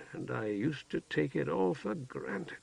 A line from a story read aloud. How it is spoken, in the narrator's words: murmured